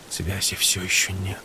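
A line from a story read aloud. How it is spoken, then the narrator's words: Quiet. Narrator (Russian): сказал тихо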